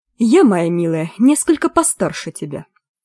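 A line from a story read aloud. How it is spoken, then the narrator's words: Icy old woman's voice. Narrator (Russian): заметила ей бабушка, ужасающая ледяным тоном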